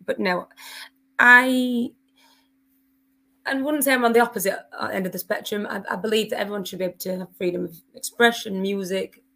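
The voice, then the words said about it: Hoarse, partly lost voice. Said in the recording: “my voice is, I need auto-tune in. I've lost my voice a little”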